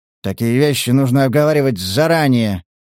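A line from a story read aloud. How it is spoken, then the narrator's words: Grumbling, out of arguments. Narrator (Russian): проворчал охотник, не найдя, что возразить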